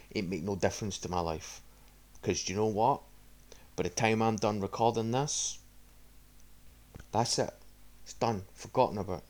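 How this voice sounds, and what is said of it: Scottish accent. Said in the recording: “that Scotsman with a fucking retarded accent”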